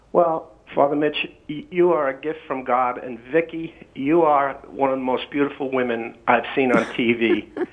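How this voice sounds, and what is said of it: New York City accent. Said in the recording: “I'm from New York City. ... I can tell from your accent.”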